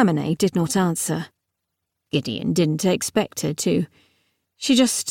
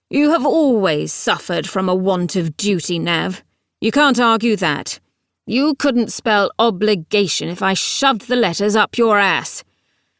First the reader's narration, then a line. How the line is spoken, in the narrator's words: she said gruffly